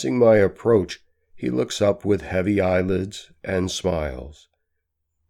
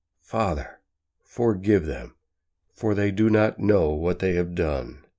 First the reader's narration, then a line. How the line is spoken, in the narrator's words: faintly hear him whisper